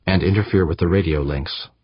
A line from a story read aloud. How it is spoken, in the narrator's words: Fritz added calmly